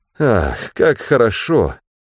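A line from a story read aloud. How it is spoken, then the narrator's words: Sighed. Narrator (Russian): вздохнул Ганилон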